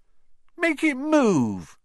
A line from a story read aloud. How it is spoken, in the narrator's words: whined